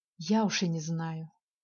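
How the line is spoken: Sigh. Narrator (Russian): вздохнула она

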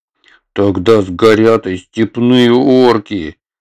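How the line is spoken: Protesting. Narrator (Russian): запротестовал Атхи

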